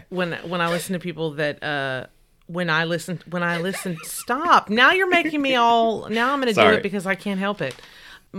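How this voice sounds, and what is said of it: Twangy Texas accent. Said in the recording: “my accent gets real twangy when I talk about this ... It literally just did on the word I. ... You said ah. ... I also just have a Texas accent.”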